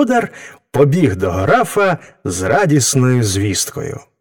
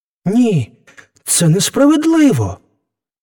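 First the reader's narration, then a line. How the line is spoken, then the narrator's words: Young man exclaiming. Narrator (Ukrainian): вигукнув юнак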